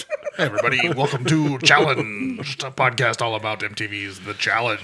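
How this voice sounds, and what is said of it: Announcer voice. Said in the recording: “Did you say that in your announcer voice?”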